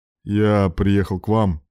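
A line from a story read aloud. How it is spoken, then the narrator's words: Dry reply. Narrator (Russian): сухим тоном ответил Руслан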